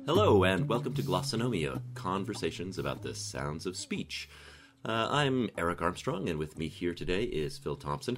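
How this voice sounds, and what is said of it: Congested, stuffy-nosed voice. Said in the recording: “I have a bit of a cold”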